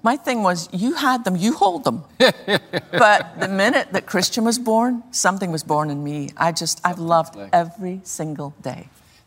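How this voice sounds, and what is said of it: Scottish accent. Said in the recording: “your accent ... I was born on the west coast of Scotland”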